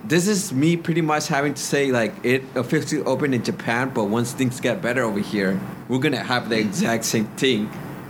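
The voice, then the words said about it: Put-on Jamaican accent. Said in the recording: “my Jamaican accent is coming out”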